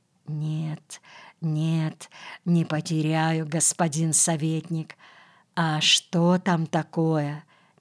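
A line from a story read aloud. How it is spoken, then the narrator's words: Quiet question. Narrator (Russian): тихо спрашивает она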